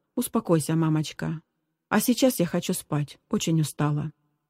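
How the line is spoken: Said softly. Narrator (Russian): Зиночка мягко сказала

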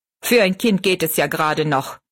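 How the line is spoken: Angry. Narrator (German): meinte er zornig

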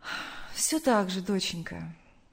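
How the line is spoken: Sad mother's reply. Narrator (Russian): грустно ответила мать

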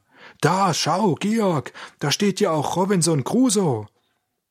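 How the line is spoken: Sudden call. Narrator (German): Auf einmal rief er

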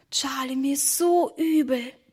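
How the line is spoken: Whispered. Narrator (German): flüsterte Emma

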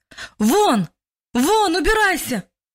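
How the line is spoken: Man shouting louder. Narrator (Russian): уже громче крикнул мужчина во второй раз

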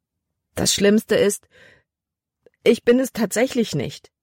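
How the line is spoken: Whining complaint. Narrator (German): jammerte

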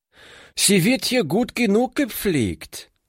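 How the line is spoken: Calling out. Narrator (German): rief sie

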